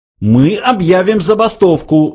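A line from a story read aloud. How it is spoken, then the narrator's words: Yelling. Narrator (Russian): завопил Врумфондель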